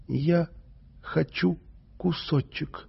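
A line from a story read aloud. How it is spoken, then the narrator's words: Quiet. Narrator (Russian): сказала она тихо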